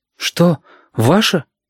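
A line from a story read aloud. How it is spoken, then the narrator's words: Child, almost frightened. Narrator (Russian): почти испуганно спросил мальчик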